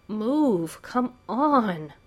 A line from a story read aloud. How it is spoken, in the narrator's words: His voice breaks off in a wail